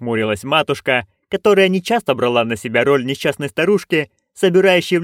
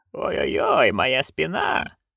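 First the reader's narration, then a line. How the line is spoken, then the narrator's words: Hoarse lisping. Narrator (Russian): сипло засисюкала она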